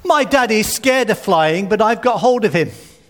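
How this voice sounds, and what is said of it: Loud child's voice. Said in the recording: “in a very loud voice, so everyone could hear”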